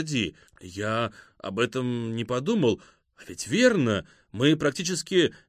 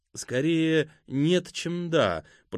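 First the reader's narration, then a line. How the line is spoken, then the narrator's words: Meowing voice. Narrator (Russian): произнес кот мяукающим голосом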